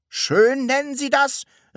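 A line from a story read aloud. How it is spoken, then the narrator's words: Shuddering exclamation. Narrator (German): rief Herr Taschenbier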